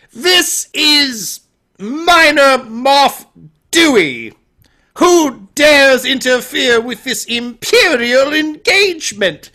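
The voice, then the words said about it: Poor attempt at British accent. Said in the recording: “You can tell he doesn't have a British accent, but he's trying.”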